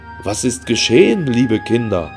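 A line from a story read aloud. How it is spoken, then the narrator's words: Excited asking, several voices. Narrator (German): fragten Alfred und Hans aufgeregt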